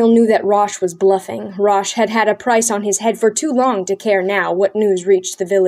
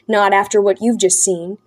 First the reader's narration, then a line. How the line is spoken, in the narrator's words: he said, his voice ugly